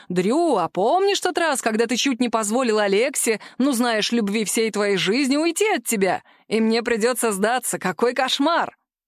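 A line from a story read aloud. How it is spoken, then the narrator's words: Laughing. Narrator (Russian): Карлос рассмеялся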